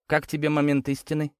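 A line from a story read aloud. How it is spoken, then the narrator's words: Plain question. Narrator (Russian): спросил я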